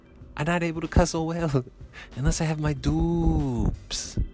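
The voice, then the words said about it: Imitates another person's accent. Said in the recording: “Why am I doing this accent? This is how he talked.”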